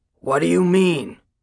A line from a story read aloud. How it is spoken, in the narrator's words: he demanded roughly